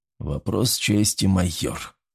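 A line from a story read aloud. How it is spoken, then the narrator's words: Quiet. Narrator (Russian): тихо сказал он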